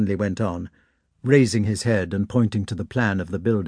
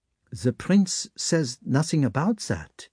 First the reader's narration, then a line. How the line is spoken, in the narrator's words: he remarked gently